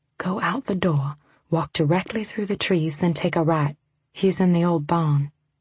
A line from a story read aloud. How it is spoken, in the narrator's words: May whispered